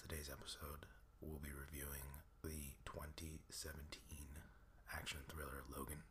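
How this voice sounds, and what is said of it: Sick, slightly altered voice. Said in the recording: “I'm feeling a little under the weather ... my voice is a little different or a little distracting”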